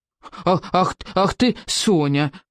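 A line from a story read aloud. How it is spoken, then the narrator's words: Indignant puffing. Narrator (Russian): возмущенно запыхтел Беззубик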